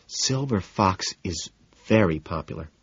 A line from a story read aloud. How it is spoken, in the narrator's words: Daisy murmurs